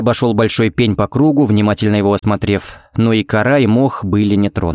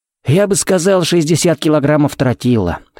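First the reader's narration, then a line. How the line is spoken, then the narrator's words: Wry snort. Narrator (Russian): хмыкнул Феникс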